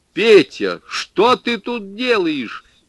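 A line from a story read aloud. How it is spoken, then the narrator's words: Shouted. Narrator (Russian): крикнул я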